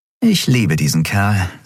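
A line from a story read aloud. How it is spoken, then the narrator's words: Plain. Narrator (German): sagte Endriel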